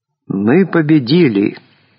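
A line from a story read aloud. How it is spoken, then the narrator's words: Joyful. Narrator (Russian): радостно сказал пресс-секретарь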